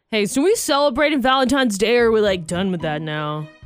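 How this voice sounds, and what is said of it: Imitates another person's voice. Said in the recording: “I didn't do a very good impression. ... I think it was pretty spot on of your fiance. ... That's how people at Froggy think he talks.”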